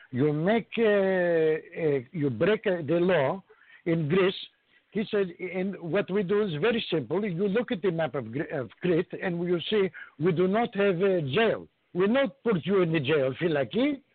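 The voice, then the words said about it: Put-on Greek accent. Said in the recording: “to use a Greek accent this time”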